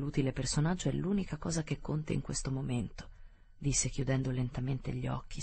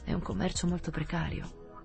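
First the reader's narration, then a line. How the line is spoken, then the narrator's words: Murmur. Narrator (Italian): mormorò il vice capo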